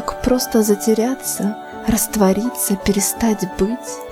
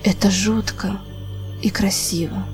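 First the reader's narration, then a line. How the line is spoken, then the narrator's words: Quiet utterance. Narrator (Russian): тихо вымолвил непрошенный собеседник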